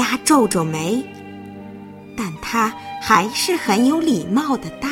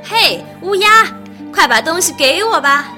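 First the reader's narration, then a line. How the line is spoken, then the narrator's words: Loud shout. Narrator (Chinese): 贪心的女孩大叫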